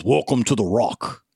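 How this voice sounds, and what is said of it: Weak Sean Connery impression. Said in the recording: “I can't do a Sean Connery British accent either ... the Daryl Hammond SNL Sean Connery impersonation ... it sounds better in person than it just did on the microphone, but it's really not that good”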